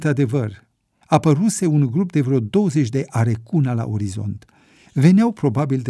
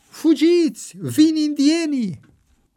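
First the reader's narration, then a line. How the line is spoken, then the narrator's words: Heard shout. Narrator (Romanian): a auzit un strigăt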